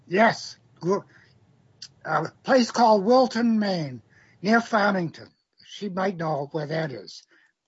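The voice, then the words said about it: Maine accent. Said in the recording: “I can hear some of that Maine ... I never lost my accent”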